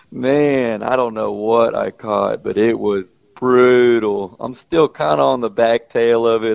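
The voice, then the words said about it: Voice sounds sick. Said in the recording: “I've been sick as a dog for a week... you could probably hear it in my voice”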